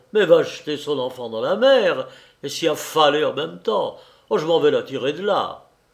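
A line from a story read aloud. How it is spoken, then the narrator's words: Exclaimed. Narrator (French): s'écria le patron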